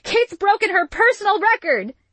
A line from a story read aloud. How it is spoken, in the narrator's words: Isabel yelled